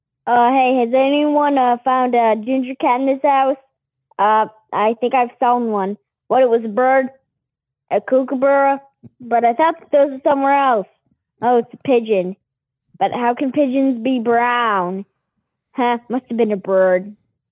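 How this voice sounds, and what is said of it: Imitates another person's voice. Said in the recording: “your impression of me, because you're doing a really good job”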